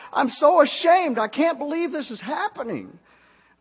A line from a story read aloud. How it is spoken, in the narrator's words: his mother burst into tears and she cried